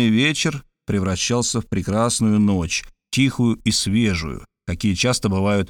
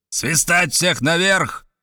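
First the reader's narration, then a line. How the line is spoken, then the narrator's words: Shouting through a megaphone. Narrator (Russian): крикнул Мартинес в рупор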